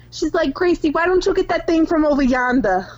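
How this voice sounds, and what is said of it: Italian Boston accent. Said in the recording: “she said over yonder in an Italian Boston accent.”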